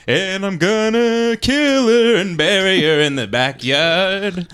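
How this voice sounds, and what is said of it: Crooning singing voice. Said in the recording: “this is crooning”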